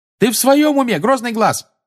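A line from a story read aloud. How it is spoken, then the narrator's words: Yelling. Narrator (Russian): заорала Тонкс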